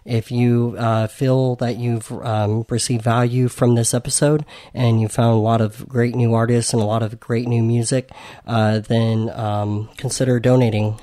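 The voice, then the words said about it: Worn-out, nearly lost voice. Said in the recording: “my voice is pretty much almost gone after doing this. I've been going for about 2 hours.”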